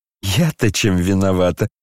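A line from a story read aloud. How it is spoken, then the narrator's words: Laughing. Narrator (Russian): смеялась Аделаида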